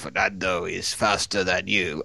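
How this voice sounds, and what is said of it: Sinister imitation of another person. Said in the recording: “That's not the Darlington accent of Rob Smedley ... I'm just doing it slightly more sinisterly”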